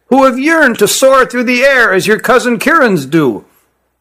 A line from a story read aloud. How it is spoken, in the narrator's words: said to his compatriot in a shrill voice